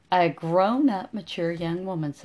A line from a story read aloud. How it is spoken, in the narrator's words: said